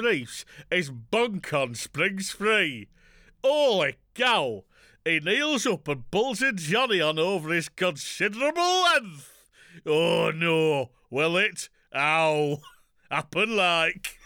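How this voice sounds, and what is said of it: Put-on Yorkshire accent. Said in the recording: “this accent is... Yorkshire”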